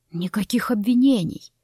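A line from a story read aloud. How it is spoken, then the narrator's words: Soft, chilling tone. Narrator (Russian): мягко заметил, но от его интонации по спине пробежал холодок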